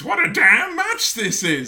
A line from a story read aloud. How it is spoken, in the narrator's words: big, massive kick out, and just screams